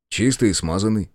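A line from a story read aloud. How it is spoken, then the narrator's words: Snorting. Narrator (Russian): хмыкнул я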